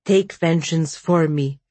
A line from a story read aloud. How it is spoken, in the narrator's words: she said flatly